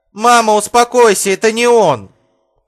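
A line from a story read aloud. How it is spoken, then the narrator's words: Woman shouting. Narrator (Russian): прокричала женщина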